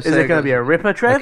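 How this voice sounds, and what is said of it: Put-on, deliberately bad Australian accent. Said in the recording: “a story from Australia ... are you going to put on a NAF accent?”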